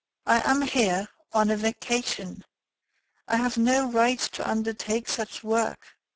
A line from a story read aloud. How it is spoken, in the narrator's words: This offer disconcerted Ganimard, who replied calmly